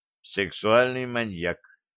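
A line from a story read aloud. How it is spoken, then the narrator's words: Dejected sigh. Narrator (Russian): удрученно вздохнул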